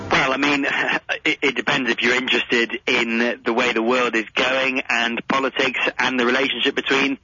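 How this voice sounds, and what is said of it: English accent from London. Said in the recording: “your accent, just lovely.”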